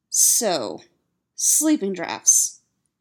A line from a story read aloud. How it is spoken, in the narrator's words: he says firmly